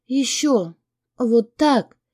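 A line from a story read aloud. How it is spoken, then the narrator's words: Whisper. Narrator (Russian): шептала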